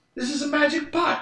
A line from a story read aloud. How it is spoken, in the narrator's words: cried the innkeeper